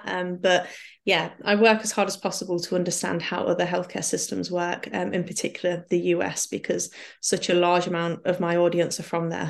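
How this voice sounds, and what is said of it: British accent. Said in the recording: “UK NHS medical system ... didn't pick up with my accent”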